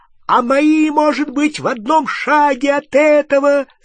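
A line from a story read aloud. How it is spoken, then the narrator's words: Shrieking. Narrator (Russian): завизжал Рон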